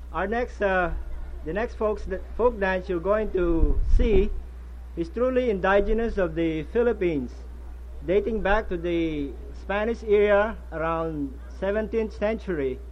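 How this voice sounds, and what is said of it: Filipino-accented English. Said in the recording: “my quaint Philippine accent”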